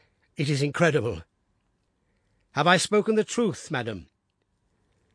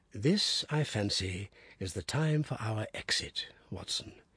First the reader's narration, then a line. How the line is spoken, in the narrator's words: said Holmes in a whisper